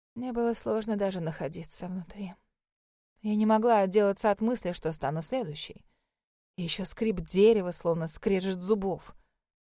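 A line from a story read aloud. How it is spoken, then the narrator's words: Muffled through hands. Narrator (Russian): Она спрятала лицо в ладонях и глухо добавила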